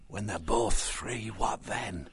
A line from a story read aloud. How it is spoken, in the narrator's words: Orlando whispered to Matthias